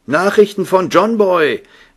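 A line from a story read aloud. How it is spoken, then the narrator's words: Husband calling out. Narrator (German): rief ihr Mann ihr zu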